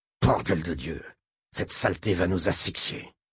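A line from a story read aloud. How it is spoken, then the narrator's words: Angry growl. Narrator (French): gronda Chuck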